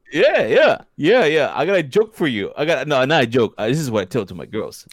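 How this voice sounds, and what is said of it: Brooklyn-accented impression of another person. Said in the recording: “give your best impersonation of Joey ... your interpretation of Joey from Brooklyn ... That's close. ... Hey, that's pretty good.”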